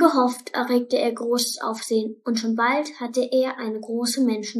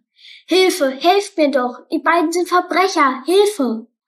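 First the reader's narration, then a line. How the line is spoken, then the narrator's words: Loud shout for help. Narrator (German): rief so laut er konnte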